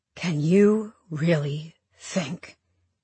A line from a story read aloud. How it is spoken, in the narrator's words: He says slowly